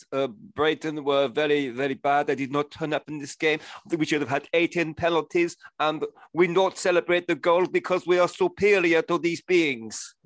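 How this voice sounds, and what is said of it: Mock German accent, Tuchel impression. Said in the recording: “Tommy Tuchel, are you his tribute act tonight ... if you can affect a German accent and start grizzling about being tired ... The Russian.”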